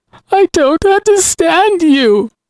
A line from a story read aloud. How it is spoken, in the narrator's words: Miles sobbed through his very convincing crocodile tears